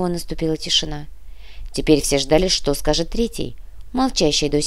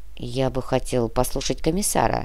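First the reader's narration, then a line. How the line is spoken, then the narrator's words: Grumbling. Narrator (Russian): проворчала третья фигура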